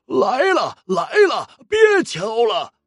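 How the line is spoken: Old voice calling out. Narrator (Chinese): 苍老的声音喊道

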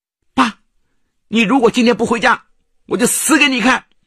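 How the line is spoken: Loud. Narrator (Chinese): 徐小英大声说

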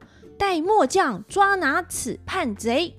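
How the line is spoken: Loud shouting general. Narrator (Chinese): 一个将领……大声的叫着

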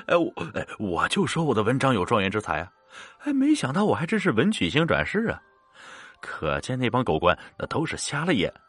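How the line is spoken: Laughing heartily. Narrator (Chinese): 李道成哈哈大笑着说

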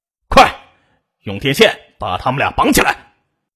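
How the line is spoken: Shouted. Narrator (Chinese): 对张莎莎吼道

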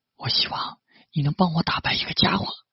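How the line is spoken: Quiet, determined. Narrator (Chinese): 上田夏娜咬了咬牙，小声说道

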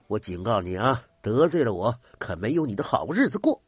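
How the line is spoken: Through gritted teeth, threatening. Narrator (Chinese): 刘知中狠狠的瞪着道长，咬牙道

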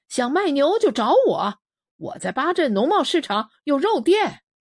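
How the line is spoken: Calling out while leaving. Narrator (Chinese): 一边往邻家院门走，一边向我挥手喊

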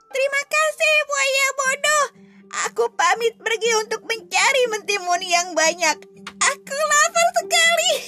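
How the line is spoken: Shouting. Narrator (Indonesian): Kancil pun berkata sambil berteriak

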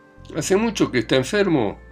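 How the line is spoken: Shout from a distance. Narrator (Spanish): gritó Ilya Petrovich desde su mesa

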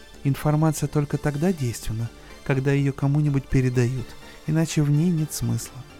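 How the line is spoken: Calm reply. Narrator (Russian): спокойно ответила

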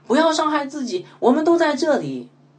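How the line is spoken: Loud shout. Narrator (Chinese): 保罗大声喊叫说

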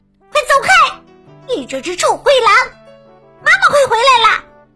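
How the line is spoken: Loud shout. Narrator (Chinese): 我大声喊道

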